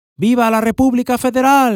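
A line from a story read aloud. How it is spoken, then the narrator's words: Crowd of women shouting. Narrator (Spanish): Del grupo más numeroso, de 20 o 30 mujeres juntas, salió un grito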